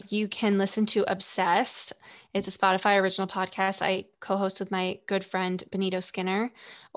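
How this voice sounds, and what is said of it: Creaky vocal fry voice. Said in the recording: “If you want to hear more of my vocal fry,”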